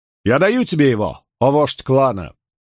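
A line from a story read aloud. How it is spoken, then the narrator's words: Loud reply, woman. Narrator (Russian): Также громко отозвалась желтоволосая женщина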